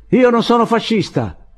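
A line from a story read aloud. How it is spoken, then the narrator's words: Yelled. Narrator (Italian): urlò Andrés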